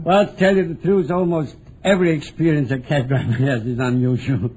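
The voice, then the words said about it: Foreign accent that sounds French. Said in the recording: “my accent. They everybody thinks I'm a Frenchman.”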